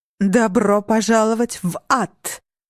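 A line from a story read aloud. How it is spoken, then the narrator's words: Demonic roar. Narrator (Russian): проревела Татьяна демоническим голосом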